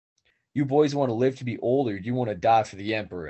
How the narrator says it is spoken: shouted

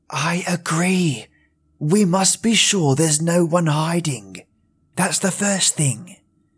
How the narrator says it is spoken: she said in a whisper

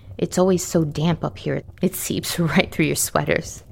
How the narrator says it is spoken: she chuckles

